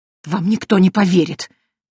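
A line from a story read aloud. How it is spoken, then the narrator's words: Hissing priest, defeated. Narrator (Russian): прошипел священник, но он уже понимал, что битва проиграна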